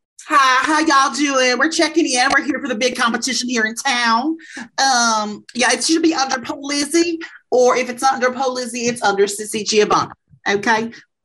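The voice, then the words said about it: Put-on Oklahoma accent. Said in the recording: “pretend that you're from Oklahoma and have an accent ... pretend you have an accent ... What's an Oklahoma accent? ... I'm you pretending to be Oklahoman”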